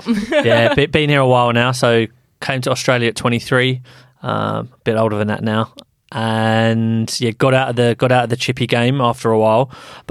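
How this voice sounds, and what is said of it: British accent. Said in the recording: “Over in the UK, you might detect a bit of an accent.”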